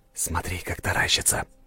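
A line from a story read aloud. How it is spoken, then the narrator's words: Whisper in ear. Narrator (Russian): прошептал я на ухо графине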